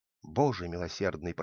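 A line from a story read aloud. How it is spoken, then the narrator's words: Wife whispering. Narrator (Russian): прошептала жена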